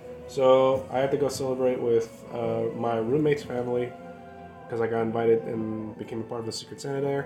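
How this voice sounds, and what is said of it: Sick-sounding voice, odd pronunciation. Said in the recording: “Why am I speaking in this weird-ass accent all of a sudden? ... I think you're just sick. ... I'm just catching words that I'm not pronouncing properly.”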